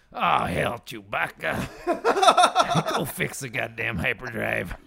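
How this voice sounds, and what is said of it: Good Nick Nolte impression. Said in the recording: “That's a really good impression. That was very good.”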